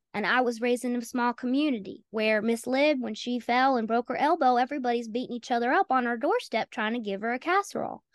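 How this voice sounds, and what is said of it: Southern American accent. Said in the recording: “I'm Southern. I don't know if you picked up on that with my accent.”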